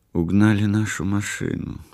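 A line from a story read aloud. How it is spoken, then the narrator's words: Quiet. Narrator (Russian): сказала она тихо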